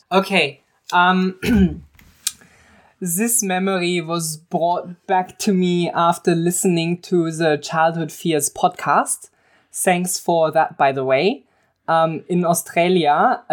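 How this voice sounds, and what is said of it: Put-on German accent. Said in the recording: “she has to do a voice. ... So they convinced me to do a German accent. ... Convincing.”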